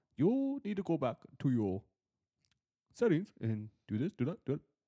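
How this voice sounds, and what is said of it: Put-on Middle Eastern accent. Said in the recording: “your Middle Eastern accent sound like Japanese”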